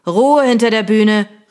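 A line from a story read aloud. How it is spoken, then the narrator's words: Called out. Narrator (German): rief Mr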